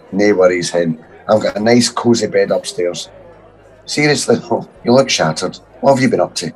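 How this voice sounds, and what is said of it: Rough, congested voice from a cold. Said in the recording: “I sound a bit rough. I've got a hell of a cold.”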